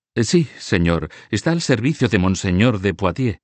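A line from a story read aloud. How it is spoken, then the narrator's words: Young man, unsure blushing voice. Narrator (Spanish): respondió el joven Felipe de Oné, enrojeciendo y con voz insegura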